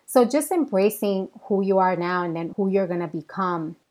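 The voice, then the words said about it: Bronx accent. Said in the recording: “I am a Latina with a Bronx accent”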